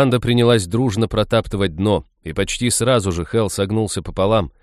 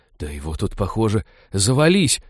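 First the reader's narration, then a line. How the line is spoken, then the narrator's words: Awed whisper. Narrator (Russian): благоговейно прошептала Молли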